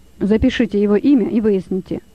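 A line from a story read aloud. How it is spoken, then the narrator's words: Plain. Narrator (Russian): сказал начальник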